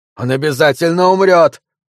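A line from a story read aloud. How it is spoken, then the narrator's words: Shouted, echoed by squeaky voice. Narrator (Russian): прокричал Маттолч, а вторивший ему тоненький голос пропищал то же самое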